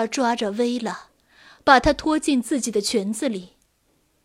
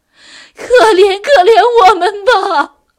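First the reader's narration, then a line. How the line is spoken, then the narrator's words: Pleading mother. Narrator (Chinese): 母亲哀求道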